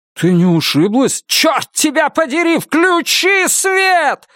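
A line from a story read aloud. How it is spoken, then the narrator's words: Screaming. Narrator (Russian): завопила она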